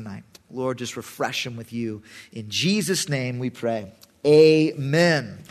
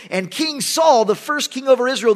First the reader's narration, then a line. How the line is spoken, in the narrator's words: the people cried out